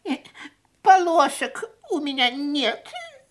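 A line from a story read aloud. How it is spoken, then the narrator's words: Sobbing. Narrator (Russian): рыдал Бинки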